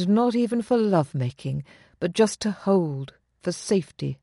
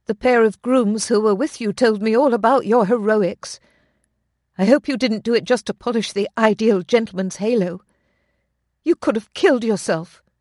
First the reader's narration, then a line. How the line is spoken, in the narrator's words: she said, her tone unusually harsh